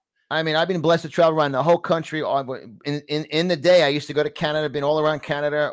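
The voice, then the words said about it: Distinct New York accent. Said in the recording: “I have a very distinct New York accent ... as soon as I open up my mouth, there's an immediate identification of my accent”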